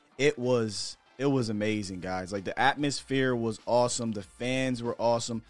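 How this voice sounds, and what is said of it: Strained, partly lost voice. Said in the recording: “y'all can't tell right now, but my voice is, I'm still trying to get that thing back.”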